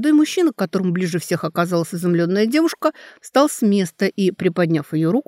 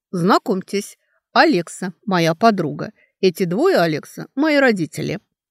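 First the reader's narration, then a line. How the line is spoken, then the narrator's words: Indifferent voice. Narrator (Russian): тем же безразличным голосом сказал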